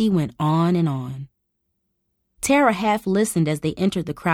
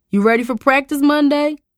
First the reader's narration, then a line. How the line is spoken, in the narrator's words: Cooper called out to him